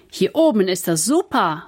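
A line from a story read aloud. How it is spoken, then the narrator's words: Calling out. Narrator (German): ruft Kevin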